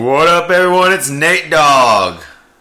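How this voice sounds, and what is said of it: Radio announcer voice. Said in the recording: “that's my radio voice”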